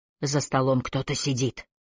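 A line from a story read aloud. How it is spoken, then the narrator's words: Strangled whisper. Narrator (Russian): сдавленно прошептал Маккалли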